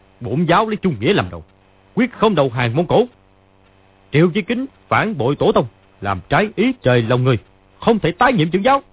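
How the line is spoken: Shout. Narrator (Vietnamese): Lý Chí Thường quát lên

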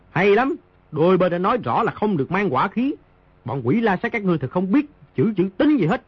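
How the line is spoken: Loud. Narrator (Vietnamese): Di Tiểu Bảo lớn tiếng nói

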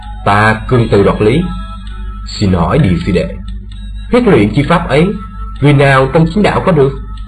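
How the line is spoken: Cold. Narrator (Vietnamese): Thương Tùng đạo nhân lạnh lùng nói

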